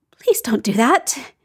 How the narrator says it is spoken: begs in a small voice

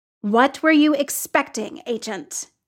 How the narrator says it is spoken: He snarled

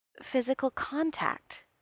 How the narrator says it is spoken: he said, his voice very soft

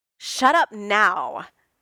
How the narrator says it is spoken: Tony snarled

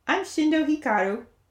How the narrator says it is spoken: the boy with bleached bangs said happily

